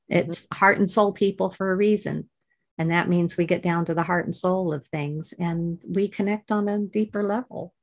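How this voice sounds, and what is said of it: Soothing voice with an accent. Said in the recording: “it's such a soothing voice. I don't know if it's the accent or it's just lovely to listen to”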